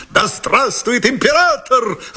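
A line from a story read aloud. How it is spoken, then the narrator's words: Shouted. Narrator (Russian): закричал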